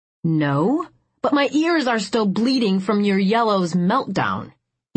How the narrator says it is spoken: he snarled

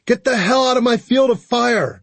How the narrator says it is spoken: Darla screamed

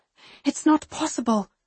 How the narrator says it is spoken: I whisper

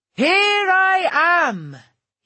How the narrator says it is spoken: he yells

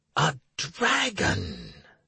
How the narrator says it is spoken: the hermit whispered

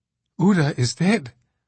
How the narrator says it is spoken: the cutout reported somewhat breathlessly

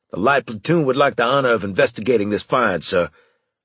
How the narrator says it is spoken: Harris called out

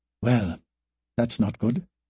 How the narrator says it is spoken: she said in a low voice

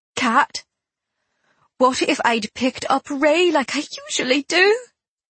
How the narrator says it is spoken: My voice broke on the words

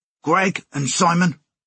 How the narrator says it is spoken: Sammy D barked

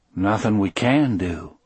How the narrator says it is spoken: Brutal said in that same calm voice

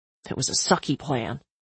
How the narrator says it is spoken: he said under his breath

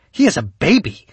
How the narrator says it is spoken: Kaylee snapped back

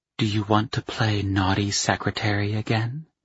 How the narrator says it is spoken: Ava whispered

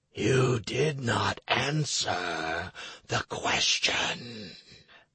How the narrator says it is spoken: whispered

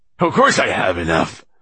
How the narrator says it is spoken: said the fat landlord indignantly

